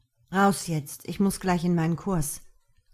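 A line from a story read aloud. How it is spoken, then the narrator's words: Growl. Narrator (German): knurrte er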